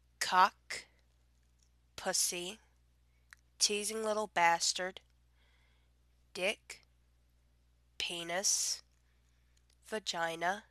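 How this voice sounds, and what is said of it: Subtle Southern US accent. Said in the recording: “my regular accent, my subtle southern accent ... you can tell I'm still getting over this dogged cold”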